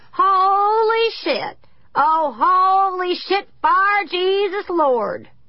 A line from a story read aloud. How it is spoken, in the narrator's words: Leon Crouch shouting over and over